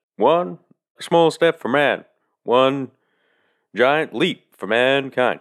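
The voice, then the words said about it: Good Barack Obama impression. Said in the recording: “It sounds like if Barack Obama said it ... that's a good impression”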